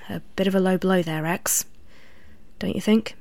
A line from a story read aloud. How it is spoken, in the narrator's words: said quietly